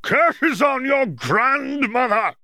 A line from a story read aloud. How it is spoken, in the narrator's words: the Jarvie shouted